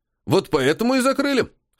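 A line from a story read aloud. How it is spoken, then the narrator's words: Wry snort. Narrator (Russian): хмыкнул аналитик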